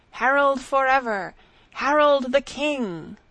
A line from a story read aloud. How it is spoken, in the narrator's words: cried